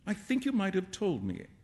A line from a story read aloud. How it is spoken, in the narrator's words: Alan said, sulkily